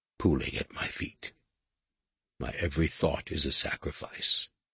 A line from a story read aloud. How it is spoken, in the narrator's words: he whispered